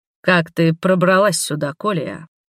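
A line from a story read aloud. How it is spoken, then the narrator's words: Menacing, through gritted teeth. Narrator (Russian): Процедил так, что даже мне стало страшно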